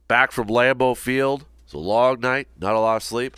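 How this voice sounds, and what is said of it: Hoarse, fading voice. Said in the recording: “even though it sounds a little different, losing my voice ... dealing with a little bit of a cold ... a change in voice”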